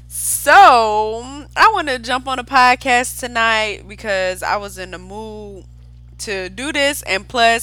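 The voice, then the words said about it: Excited, upbeat voice. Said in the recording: “I'm in a good mood, as y'all can tell from my voice. I'm all hyped up, pumped up.”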